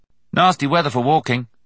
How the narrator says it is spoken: James said cheerfully

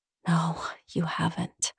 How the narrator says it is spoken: I whisper

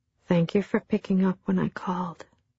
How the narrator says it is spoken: said softly

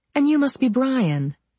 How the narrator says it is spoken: I said, smiling sweetly

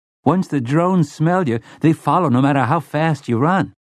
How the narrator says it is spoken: Slightman's boy said eagerly

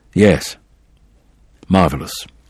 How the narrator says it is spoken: Said quietly

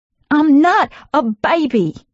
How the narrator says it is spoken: I yelled

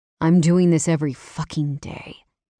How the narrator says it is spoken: he growled against my clit

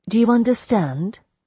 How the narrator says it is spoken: I said

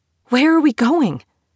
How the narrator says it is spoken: she gasped out, her lungs beginning to struggle

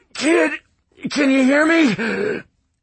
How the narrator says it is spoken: he rasped

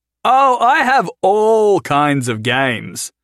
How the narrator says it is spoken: Jason's voice echoed loudly through the ruins

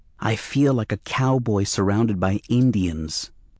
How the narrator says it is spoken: told him in a whisper

